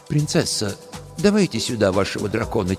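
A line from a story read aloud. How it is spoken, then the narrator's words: Quiet. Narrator (Russian): тихо сказал сенешаль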